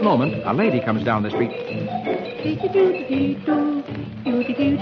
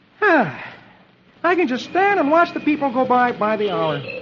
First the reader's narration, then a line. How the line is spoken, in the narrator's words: he says cheerfully